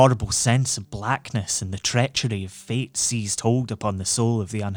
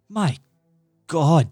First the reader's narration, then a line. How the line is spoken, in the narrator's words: he cried